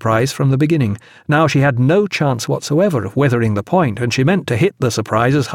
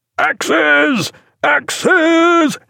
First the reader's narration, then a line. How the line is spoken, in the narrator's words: he roared